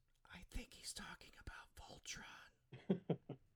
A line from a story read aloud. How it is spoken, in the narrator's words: Hunk whispers to Lance